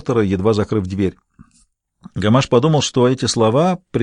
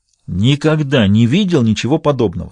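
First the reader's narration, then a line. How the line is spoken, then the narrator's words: Plain, policeman. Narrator (Russian): сказал полицейский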